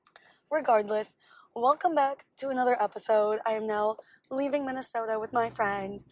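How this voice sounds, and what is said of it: Hoarse, squeaky, raspy losing voice. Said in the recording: “as you may or may not be able to hear in my voice right now, I love talking so much that I lose my voice very often. And it squeaks like so... Sounds a bit like, I don't know, a cool smoker... Like a cute little, like, cigarette voice... losing my voice”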